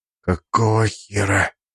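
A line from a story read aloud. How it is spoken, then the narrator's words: Breathless exclamation. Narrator (Russian): выдохнул Соколов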